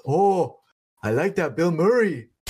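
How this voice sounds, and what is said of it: Thick Hawaiian accent. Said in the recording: “in a thick ass Hawaiian accent”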